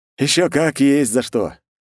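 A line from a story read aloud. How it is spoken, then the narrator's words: Wry snort. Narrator (Russian): хмыкнул я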